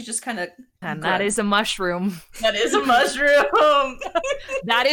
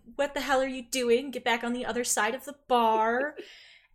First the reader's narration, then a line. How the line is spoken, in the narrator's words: says